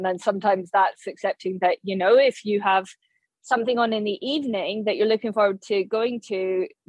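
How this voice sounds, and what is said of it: Slightly Glaswegian Scottish accent. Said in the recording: “Where's your accent from ... you sometimes sound slightly Glaswegian”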